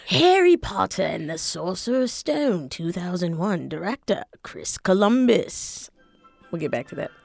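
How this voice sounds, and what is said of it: Put-on Harry Potter-style accent. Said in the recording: “my Harry Potter accent”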